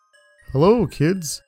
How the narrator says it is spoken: giggled

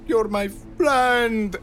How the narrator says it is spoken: Gino shouted

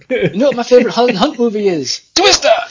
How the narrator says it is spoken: the guy shrieks

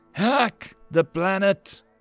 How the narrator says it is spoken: Crash Riot cried out desperately

